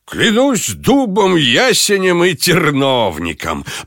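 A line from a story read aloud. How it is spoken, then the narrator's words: Laughing. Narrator (Russian): продолжал Пак, все еще смеясь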